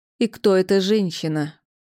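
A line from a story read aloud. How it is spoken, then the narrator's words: Through gritted teeth. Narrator (Russian): Процедила мама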